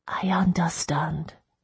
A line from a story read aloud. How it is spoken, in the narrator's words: I whispered